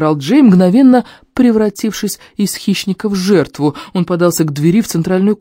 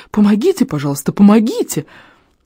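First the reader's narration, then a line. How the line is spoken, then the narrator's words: Squeaky. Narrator (Russian): пропищал тот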